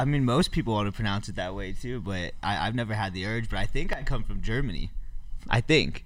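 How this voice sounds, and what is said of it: Usual voice. Nothing is said of it.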